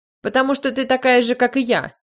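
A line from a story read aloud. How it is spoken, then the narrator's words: Shouted reply. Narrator (Russian): закричал он в ответ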